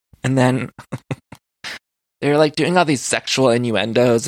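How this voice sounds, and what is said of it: Usual voice. Nothing is said of it.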